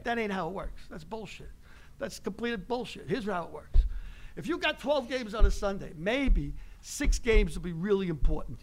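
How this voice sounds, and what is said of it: Bronx New York accent. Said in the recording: “I talk like you. I'm from the Bronx.”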